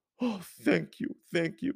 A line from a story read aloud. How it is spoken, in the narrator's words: he cried